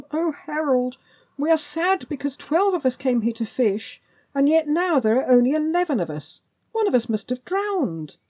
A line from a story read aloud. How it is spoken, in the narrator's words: cried